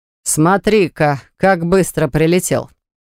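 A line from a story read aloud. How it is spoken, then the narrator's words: Mocking. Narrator (Russian): насмешливо произнес Богдан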